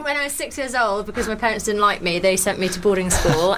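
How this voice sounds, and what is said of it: Geordie accent. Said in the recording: “she reckons she's a Geordie ... my accent”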